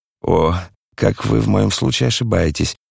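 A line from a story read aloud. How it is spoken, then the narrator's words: Quiet, conciliatory. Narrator (Russian): подхватил швейцарский пациент тихим и примиряющим голосом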